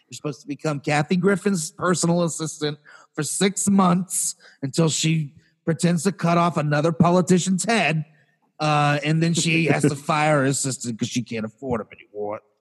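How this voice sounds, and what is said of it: Put-on New York accent. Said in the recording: “I have a New York accent all of a sudden”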